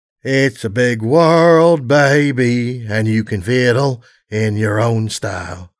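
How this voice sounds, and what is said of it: Raspy, hoarse singing voice. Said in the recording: “My voice was raspy and hoarse”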